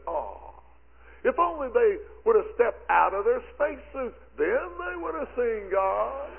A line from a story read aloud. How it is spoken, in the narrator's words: Criswell, exclaimed to his people, and he said